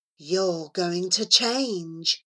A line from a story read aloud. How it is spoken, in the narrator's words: he whispered at Charlie